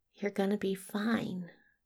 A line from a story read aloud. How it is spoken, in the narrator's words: murmurs